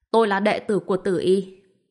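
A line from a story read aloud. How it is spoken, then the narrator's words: Loud laughing speech. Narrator (Vietnamese): Bạch Diệp Phi cười lớn nói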